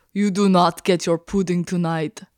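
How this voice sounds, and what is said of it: Poor Eastern European woman accent. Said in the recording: “What was that? That was terrible. ... yours was terrible. You just sounded like an Eastern European woman.”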